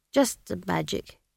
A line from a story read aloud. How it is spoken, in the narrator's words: he mumbled